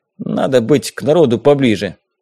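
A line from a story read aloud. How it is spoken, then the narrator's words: Spiteful grumble. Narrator (Russian): злобно буркнул мне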